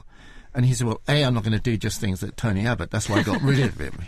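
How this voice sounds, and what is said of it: Imitates another person's voice. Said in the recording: “The accent.”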